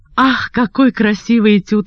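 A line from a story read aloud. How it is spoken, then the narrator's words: Exclaiming. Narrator (Russian): воскликнула я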